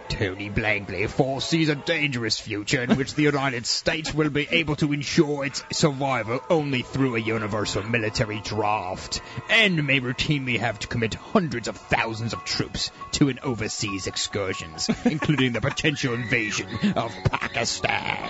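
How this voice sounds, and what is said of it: Weird put-on Australian accent. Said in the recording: “I had some kind of like weird Australian accent going there. I can't figure it out”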